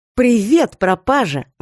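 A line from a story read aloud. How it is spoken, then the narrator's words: Exclamation. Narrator (Russian): воскликнула она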